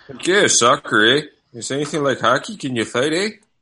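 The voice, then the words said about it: Imitates McKenzie Brothers characters' voices. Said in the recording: “I wonder what the McKenzie brothers would say about this.”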